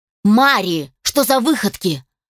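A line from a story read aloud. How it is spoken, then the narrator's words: Angry. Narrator (Russian): рассердился Алишер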